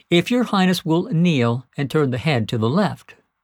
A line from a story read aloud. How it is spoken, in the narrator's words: puffed earnestly